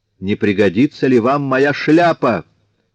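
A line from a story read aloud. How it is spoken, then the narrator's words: Shouting from doorway. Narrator (Russian): крикнул с порога чей-то голос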